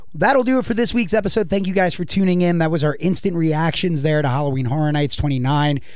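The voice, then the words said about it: Slightly raspy voice. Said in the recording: “You can tell still by my voice, which is a little raspy.”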